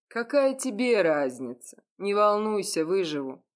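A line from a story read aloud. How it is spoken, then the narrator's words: Chuckling reply. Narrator (Russian): хохотнул в ответ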